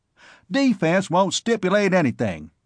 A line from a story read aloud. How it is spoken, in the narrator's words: barked